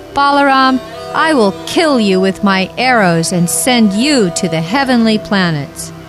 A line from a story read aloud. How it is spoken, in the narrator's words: shouted at Balaram